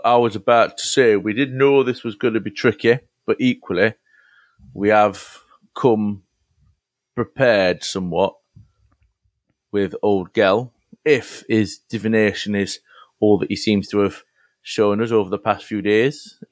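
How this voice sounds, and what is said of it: Strained, hoarse voice. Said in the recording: “Your voice sounds strained. ... It's a bit of smoke, and it's a dust ... You can hear it.”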